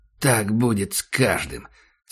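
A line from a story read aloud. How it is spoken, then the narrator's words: Hoarse. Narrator (Russian): сказал Ахмед хрипло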